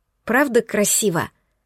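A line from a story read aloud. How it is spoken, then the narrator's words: Hoarse with emotion. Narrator (Russian): Осипшим от волнения голосом выдавила я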